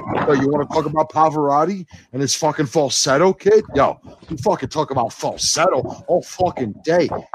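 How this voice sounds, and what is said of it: Exaggerated put-on Bronx accent. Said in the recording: “How much more Bronx can you get right there? ... I wanted more Bronx. ... I'm working on the Bronx dude who knows how to talk about wrestling, or the Bronx dude who knows how to talk about opera.”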